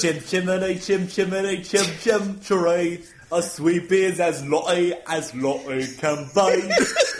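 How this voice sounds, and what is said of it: Mock British accent, Dick Van Dyke. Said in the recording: “a better impression than... Dick Van Dyke's Mary Poppins ... all this Britishness”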